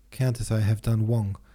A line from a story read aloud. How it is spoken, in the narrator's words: Denisov went on in an unsteady voice